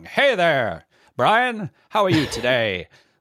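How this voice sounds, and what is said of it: Old-time radio announcer voice. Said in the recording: “radio voice, like I was doing before, where you talk like this ... radio announcers talked in this range that came through those shitty speakers”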